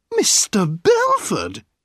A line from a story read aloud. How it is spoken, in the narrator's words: a sweet voice cried